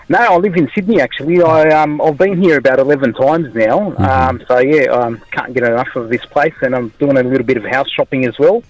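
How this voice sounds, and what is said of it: Slight Lebanese Australian accent. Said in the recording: “Have you got like Lebanese heritage there going on in your accent ... I can tell a little bit ... the Lebanese Australian accent”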